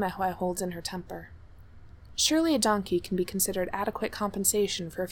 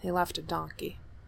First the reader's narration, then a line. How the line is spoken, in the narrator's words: mutters